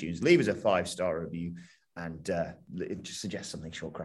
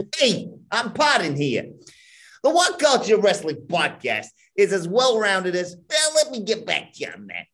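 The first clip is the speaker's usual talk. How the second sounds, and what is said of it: Put-on New York accent. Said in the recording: “New York accent, mildly appropriate, but optional, so I'm going to go for it.”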